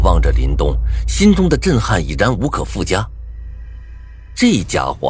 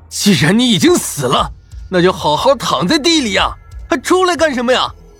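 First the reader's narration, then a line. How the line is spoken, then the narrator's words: Frantic roar. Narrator (Chinese): 苏洛言这家伙接连吃亏，心态已经有些崩了，不然也就不会这么没头没脑的朝林东咆哮啊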